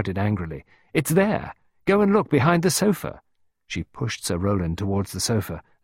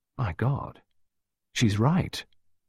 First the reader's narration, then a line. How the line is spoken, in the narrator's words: Jeremy murmured